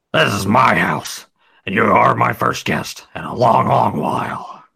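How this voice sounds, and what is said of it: Imitation of Vince's voice. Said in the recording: “say it in your Vince voice. ... The Vince voice isn't that great”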